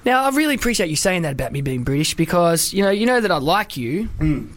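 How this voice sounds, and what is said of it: Australian accent. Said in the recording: “I know I've got the accent of an Aussie, but I am English.”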